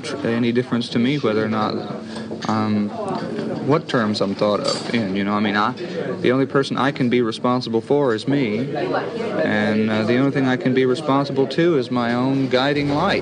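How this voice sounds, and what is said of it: Middle-class Texas accent. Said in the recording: “I love that Texas accent ... very middle class Texas accent ... that's a middle class Texas accent”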